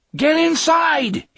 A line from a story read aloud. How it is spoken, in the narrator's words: he screamed at Peter, and his voice came out sounding low and strengthless to his own ears